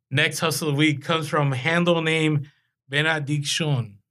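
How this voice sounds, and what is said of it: Says a name in put-on accent. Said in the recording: “I don't know why I said that with an accent”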